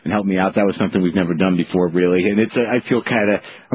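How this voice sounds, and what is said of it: Choked-up, emotional voice. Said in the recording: “I'm a little choked up.”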